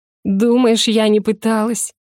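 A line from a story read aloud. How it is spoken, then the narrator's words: Hysterical laugh. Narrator (Russian): Истерично хохотнула девушка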